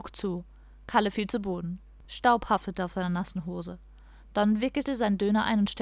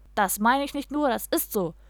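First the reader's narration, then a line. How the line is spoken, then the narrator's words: Said with a laugh. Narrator (German): sagte der andere, lachte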